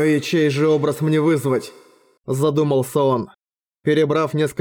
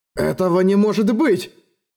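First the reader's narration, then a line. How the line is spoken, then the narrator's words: Exclaiming in great agitation. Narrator (Russian): В страшном волнении воскликнул он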